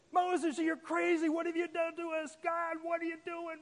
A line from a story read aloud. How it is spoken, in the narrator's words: Screaming